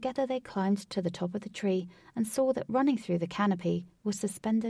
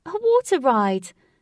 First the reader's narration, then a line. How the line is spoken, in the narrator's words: cried Katie with delight